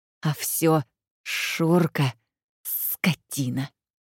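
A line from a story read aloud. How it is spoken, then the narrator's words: Hateful hiss. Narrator (Russian): с ненавистью прошипела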